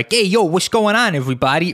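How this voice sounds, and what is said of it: Exaggerated fake New York accent. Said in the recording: “when I do my fake New York accent, it's like 0 or 100 ... when I do a New York accent, it's either like”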